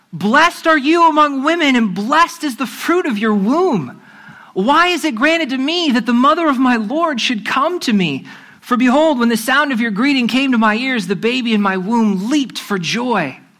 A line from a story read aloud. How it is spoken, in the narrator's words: Elizabeth was filled with the Holy Spirit, and she exclaimed with a loud cry